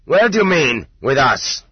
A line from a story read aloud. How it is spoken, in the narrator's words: the master sergeant barked more loudly than he needed to